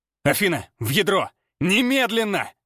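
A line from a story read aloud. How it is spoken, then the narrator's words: Barked telepathically. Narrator (Russian): Мысленно рявкнул я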